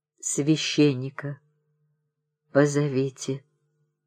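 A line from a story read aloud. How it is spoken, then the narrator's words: Weak voice. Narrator (Russian): слабым голосом говорил он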